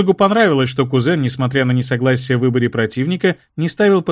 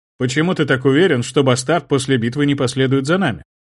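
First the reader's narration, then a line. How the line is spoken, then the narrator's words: Plain. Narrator (Russian): спросил Карло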